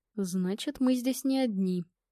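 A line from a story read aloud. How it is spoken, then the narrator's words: Barely audible. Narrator (Russian): чуть слышно проговорил Игорь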